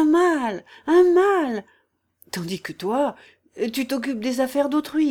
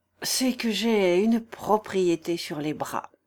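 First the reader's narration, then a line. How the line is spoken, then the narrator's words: Sighing. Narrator (French): dit Oblomov en soupirant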